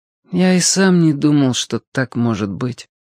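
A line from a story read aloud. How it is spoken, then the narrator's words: Sad. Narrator (Russian): грустно сказал летчик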